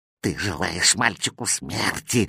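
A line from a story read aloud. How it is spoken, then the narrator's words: Cat's vicious hiss. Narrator (Russian): злобно шипел кот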